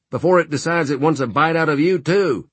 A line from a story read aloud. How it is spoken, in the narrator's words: he shouted